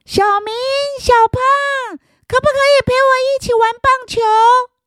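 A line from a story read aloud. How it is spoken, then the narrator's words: Calling out. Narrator (Chinese): 小琪在喊着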